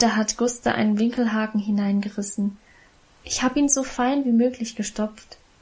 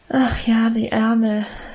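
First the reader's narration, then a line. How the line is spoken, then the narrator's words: Sigh. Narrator (German): seufzte Emma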